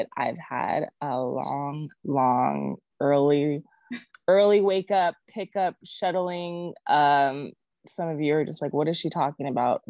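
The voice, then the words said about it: Sleepy, tired-sounding voice. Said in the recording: “I sound a little sleepy or out of it”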